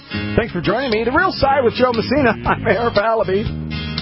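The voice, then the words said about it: Deep announcer voice impression. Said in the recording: “my deep voice impersonation ... I love that voice”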